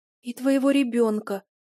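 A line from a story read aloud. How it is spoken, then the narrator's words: Trembling little voice. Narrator (Russian): дрожащим голоском добавила Оза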